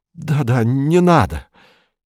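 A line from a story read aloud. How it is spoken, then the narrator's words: Broken trembling voice. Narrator (Russian): Феликс, он сломлен, дрожащим голосом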